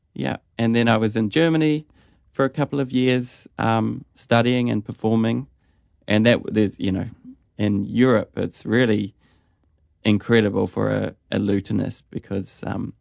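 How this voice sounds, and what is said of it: Slight Australian accent. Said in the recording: “you've got a bit of an Australian accent now”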